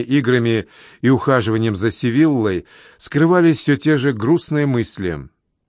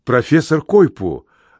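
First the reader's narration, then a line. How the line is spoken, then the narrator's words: Joyful exclamation. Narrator (Russian): радостно воскликнул я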